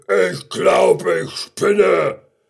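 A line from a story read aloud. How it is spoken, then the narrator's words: Lion roaring. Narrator (German): Der Löwe brüllte nur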